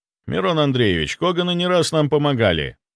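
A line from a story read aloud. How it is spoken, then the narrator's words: Dry speech. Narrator (Russian): сухо произнес я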